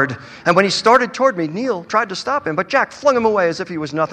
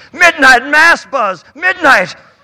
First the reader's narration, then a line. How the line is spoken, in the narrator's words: he boomed